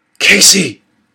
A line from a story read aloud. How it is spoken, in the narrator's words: I whispered as loudly as I dared